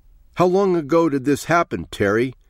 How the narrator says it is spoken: she shouted down into his face

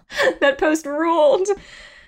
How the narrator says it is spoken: She laughed out loud just remembering it

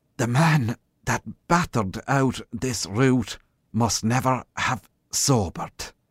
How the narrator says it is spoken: panted the sergeant

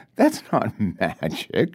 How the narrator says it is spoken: she says, laughing

